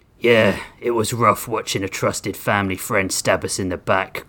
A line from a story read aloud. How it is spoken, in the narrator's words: Grissom growled